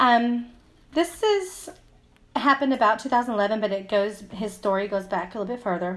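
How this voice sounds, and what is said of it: Usual voice. Nothing is said of it.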